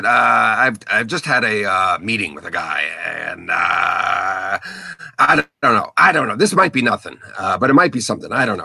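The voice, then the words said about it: Imitates another person's voice. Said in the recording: “that was a very good impression of Jamie Inquis”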